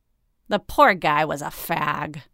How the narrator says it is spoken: Mahan sneered

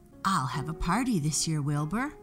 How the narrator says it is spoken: said Wilbur

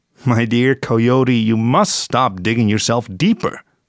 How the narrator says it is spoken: said Rumor

